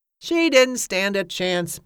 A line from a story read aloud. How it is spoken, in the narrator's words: Bill Hillsgrove repeated gloomily